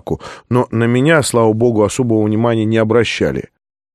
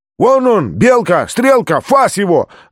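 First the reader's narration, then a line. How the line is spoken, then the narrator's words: Yelled from behind. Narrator (Russian): заорал кто-то сзади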